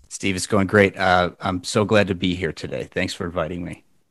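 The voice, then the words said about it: Super chill radio voice. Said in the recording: “you come in with like a super chill, like radio voice on me”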